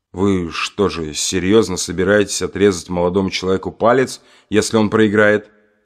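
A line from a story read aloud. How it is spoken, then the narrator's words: Plain. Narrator (Russian): спросил я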